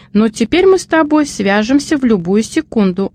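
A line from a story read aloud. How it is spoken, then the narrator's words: Happy young daughter. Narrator (Russian): радостно сказала дочка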